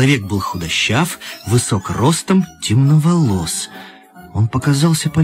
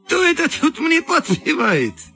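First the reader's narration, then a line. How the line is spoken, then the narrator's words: Cheerful question. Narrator (Russian): весело спросил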